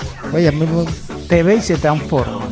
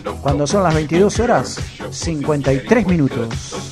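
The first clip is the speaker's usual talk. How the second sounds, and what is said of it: Radio announcer voice. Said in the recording (Spanish): “voz de locutor”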